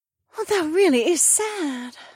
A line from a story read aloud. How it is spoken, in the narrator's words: Emma sighed